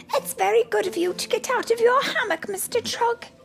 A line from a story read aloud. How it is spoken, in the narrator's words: exclaimed